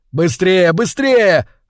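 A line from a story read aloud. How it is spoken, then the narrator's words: Yelling close to ear. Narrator (Russian): орал Вовка у меня над ухом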